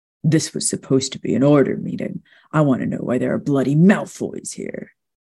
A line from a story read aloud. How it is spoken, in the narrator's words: Charlie snapped